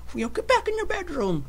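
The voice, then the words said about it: Stern mom character voice. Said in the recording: “the stern mom character who's like ... that's my old mom voice”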